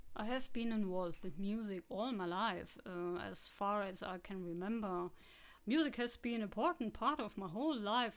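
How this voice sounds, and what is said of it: Possibly strong German accent. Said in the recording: “my possibly strong German accent and pronunciation”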